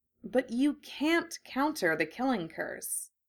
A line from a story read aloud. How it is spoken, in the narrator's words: Hermione said slowly, trying to process what Harry was saying